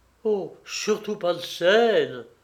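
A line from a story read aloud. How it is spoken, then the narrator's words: Pleading. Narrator (French): supplia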